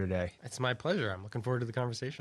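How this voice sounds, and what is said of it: Nasal voice from a cold. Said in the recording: “you're fighting a little bit of a cold ... I sound a little nasal, this is not my normal voice.”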